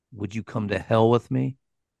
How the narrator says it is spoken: she replied

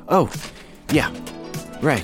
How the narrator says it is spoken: Robert again stammered

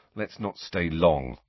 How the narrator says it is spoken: Ron said quietly

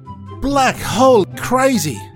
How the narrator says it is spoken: shouted Curtis

